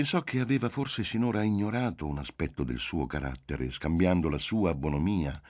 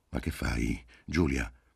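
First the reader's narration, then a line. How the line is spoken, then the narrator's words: Low voice over train noise. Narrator (Italian): domandò con voce bassa, pur tra il fragore del treno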